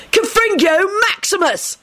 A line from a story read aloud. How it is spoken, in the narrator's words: Sirius bellowed